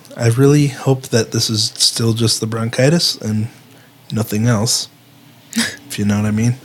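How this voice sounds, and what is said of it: Hoarse, fading voice. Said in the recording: “you may notice I'm losing my voice.”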